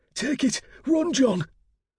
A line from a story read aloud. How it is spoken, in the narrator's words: Hogg cried